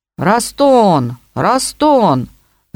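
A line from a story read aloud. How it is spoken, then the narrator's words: Shouting. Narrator (Russian): закричал младший, великий Губарев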